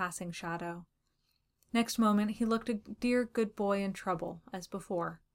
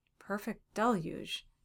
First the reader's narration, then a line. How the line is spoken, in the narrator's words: he muttered